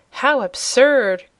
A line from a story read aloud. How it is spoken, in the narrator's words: cried Cobalt